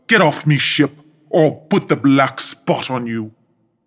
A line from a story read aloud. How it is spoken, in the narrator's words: bellowed the pirate